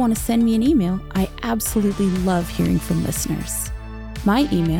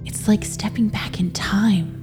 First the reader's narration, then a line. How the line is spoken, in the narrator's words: whispered